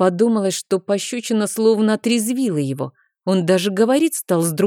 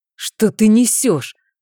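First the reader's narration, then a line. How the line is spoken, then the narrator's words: Growl. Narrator (Russian): прорычал он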